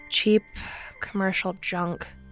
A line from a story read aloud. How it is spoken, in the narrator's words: she muttered